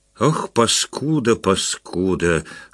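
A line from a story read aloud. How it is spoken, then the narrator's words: Whispering. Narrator (Russian): шептал он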